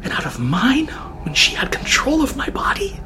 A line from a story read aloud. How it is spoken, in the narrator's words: The whisperer was panting and paused for breath